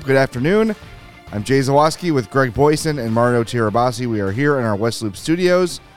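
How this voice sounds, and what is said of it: Rough, gravelly voice. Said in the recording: “apologize for my voice... Fighting a little bit of a cold... I just sound like crap... my voice is also going to sound bad... You got that gravelly... the rugged gravelly voice going”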